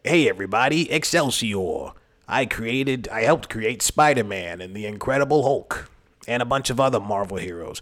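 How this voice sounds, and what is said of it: Stan Lee impression. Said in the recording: “a Stan Lee impersonator”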